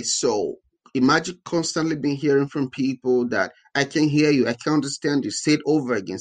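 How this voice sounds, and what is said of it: Speaks with a noticeable accent. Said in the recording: “I still have an accent ... it was much way thicker than it is today”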